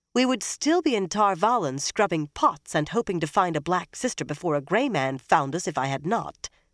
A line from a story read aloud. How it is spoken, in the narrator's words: Egwene said sharply